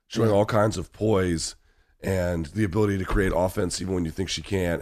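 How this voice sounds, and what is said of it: Rough, worn-out voice. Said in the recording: “My voice is trash.”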